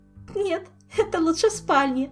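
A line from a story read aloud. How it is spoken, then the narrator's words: Giggling. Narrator (Russian): хихикнула Ольга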